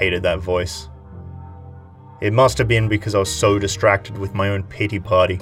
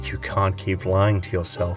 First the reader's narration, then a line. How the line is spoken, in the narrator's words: A part of me whispered